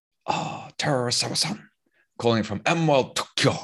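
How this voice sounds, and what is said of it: Imitated Asian accent. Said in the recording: “obviously it's an Asian accent”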